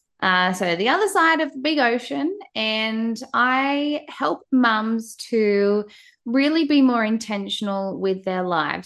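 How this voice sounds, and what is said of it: Australian accent. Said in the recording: “you can probably tell by my accent, I am from Australia.”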